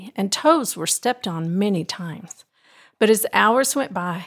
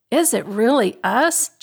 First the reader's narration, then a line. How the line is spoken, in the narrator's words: Jenny exclaimed